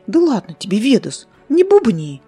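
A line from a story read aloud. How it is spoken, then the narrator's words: Innocent cooing girl. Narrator (Russian): Безобидно проворковала девочка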